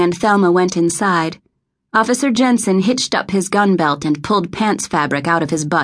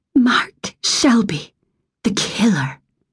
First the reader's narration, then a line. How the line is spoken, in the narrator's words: Thelma whispered